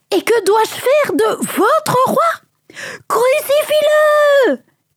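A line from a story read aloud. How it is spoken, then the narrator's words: Frenzied crowd shouting. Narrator (French): cria la foule déchaînée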